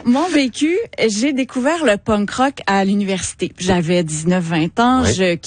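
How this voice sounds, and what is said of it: Quebec French accent. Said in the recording (French): “mon accent de Québec”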